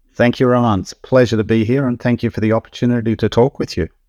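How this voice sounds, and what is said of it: Australian accent. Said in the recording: “Aussies ... good to hear the accent”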